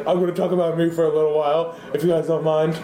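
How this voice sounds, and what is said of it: Imitates another person's voice. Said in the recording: “That's my impression of you. It was really good.”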